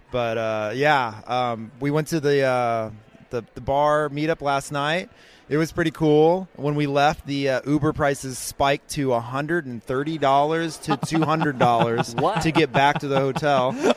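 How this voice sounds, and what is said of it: Slightly hoarse voice. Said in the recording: “my voice is a little hoarse right now. I was losing it like after day one”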